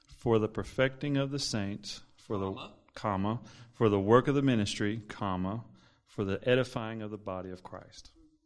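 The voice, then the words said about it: Southern accent. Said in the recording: “I like your southern accent”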